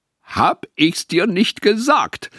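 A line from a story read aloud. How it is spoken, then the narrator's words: Triumphant shout. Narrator (German): rief er triumphierend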